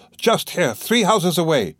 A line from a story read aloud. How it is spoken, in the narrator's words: he said eagerly